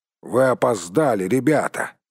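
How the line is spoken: Grumbling. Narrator (Russian): проворчал он

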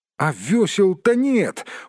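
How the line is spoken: Exclaiming. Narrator (Russian): воскликнул Бильбо

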